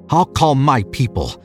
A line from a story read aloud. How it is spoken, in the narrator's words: he snarled